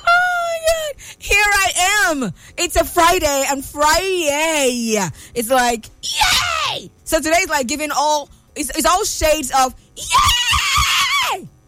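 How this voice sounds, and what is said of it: Loud excited shouting. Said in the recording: “I'm going to stop shouting now.”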